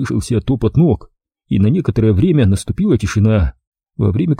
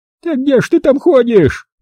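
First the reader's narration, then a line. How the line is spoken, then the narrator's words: Old woman yelling. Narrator (Russian): завопила баба Люба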